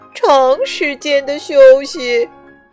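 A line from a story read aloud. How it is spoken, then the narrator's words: Beaming. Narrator (Chinese): 医生满面笑容地说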